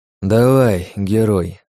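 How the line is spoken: Sighing. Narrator (Russian): вздохнул Костя

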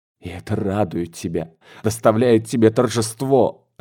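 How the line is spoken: Sobbing. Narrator (Russian): рыдала Марья Николаевна

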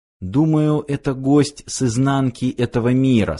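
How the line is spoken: Plain. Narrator (Russian): сказала Кио

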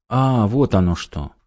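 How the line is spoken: Relieved sigh. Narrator (Russian): С непонятным облегчением вздохнула женщина

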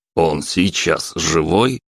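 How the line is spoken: Stern old man asking. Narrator (Russian): строго спросил дед

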